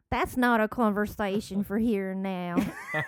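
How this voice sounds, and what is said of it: Put-on Southern US accent. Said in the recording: “Can I hear you say that in your southern accent? ... That southern character right there? ... That voice you do.”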